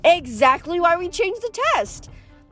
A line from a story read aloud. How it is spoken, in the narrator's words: the Sphinx exclaimed